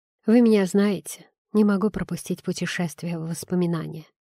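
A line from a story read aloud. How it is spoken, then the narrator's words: Mumbling. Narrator (Russian): пробормотал я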